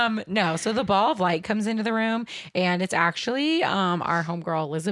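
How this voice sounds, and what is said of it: Usual voice. Nothing is said of it.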